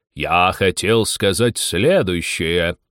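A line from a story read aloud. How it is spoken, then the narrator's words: Offended voice. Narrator (Russian): проговорил Дронт обиженным голосом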